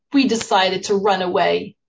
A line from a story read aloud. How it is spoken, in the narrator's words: Ligal, a spunky 14-year-old, said bitterly